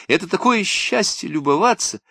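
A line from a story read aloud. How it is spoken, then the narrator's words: Exclaimed. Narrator (Russian): воскликнула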